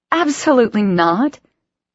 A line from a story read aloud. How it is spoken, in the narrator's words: Aiden laughed